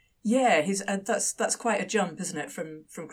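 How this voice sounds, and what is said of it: Usual voice. Nothing is said of it.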